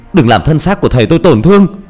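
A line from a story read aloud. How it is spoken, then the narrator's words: Screaming. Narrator (Vietnamese): Tôi gào lên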